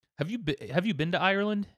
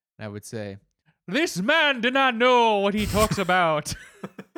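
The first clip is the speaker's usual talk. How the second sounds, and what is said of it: Approximated Irish accent. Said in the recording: “I will be continuing on in my approximation of an Irish accent”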